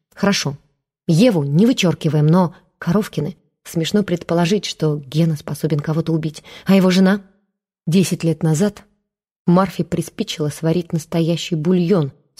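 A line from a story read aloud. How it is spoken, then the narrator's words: Calm. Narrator (Russian): спокойно сказал Матвей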